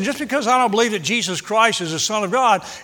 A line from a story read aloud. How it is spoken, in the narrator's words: he said